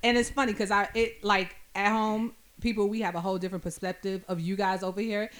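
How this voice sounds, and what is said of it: New York accent. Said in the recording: “Y'all hear the accent too. ... I'm a New Yorker”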